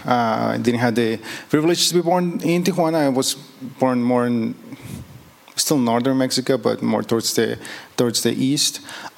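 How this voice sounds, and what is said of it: Mexican accent. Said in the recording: “my beautiful accent, I am Mexican”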